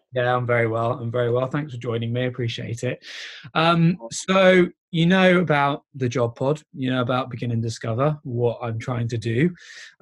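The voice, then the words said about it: Croaky voice from a cold. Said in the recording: “I sound a little croaky, by the way. I've got a bit of a cold”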